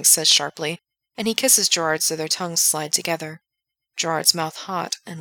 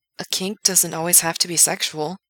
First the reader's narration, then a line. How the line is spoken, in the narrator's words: Gerard says, though his voice is noticeably unsteady